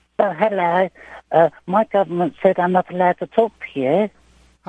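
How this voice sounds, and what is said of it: Funny voice imitating a child. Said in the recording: “imitating a voice ... my funny voices ... Zap's under 16 voice ... trying to sound like a child”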